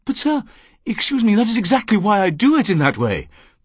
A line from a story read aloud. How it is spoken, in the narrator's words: said excitedly